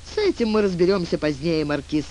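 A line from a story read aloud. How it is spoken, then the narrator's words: Laughing. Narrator (Russian): сказал Тюльпан, смеясь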